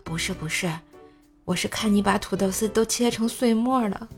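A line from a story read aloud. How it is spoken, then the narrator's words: Gentle. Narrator (Chinese): 婆婆 温柔的说道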